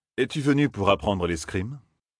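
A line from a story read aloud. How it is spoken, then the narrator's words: Plain. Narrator (French): demanda Galad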